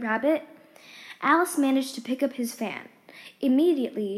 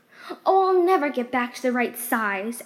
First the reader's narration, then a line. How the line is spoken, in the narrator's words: Alice cried